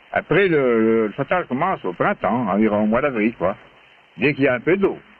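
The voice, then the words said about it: Strong regional rural accent. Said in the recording (French): “Un petit accent, disons. Il faut s'accrocher.”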